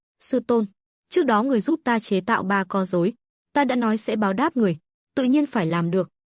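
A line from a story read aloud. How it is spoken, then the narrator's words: Smiling. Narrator (Vietnamese): Lộ Thần mỉm cười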